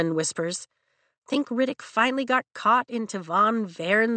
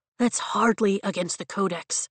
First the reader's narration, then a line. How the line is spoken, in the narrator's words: Riddick murmurs from behind us